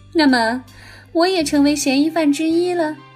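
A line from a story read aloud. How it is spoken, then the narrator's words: Smiling. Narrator (Chinese): 江离子面带微笑的说道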